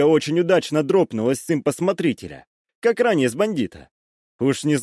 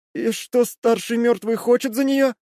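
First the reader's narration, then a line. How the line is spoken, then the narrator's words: Trembling male voice. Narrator (Russian): Дрожащим голосом произнес он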